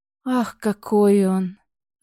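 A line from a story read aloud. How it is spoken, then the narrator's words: Delighted breathless exclamation. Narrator (Russian): Восторженно выдохнула приостановившаяся рядом Малейн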